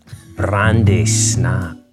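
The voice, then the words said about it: Seductive, confident sexy voice. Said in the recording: “your most seductive, sexy voice ... you sounded confident and assured.”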